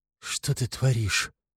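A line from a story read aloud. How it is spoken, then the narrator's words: Breaking whisper, pleading. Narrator (Russian): Срывающимся шепотом пытается вразумить Снегурка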